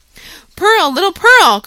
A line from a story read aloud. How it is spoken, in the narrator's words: cried he after a moment's pause, then suppressing his voice